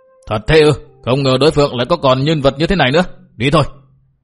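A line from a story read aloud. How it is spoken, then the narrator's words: Shouted alarmed question. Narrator (Vietnamese): Mạc Nam lão ma sắc mặt bỗng biến đổi, quát hỏi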